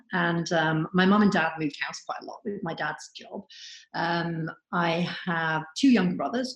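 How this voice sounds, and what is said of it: Welsh British accent. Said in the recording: “you can probably tell by the accent, I'm not originally Canadian ... I was born in North Wales”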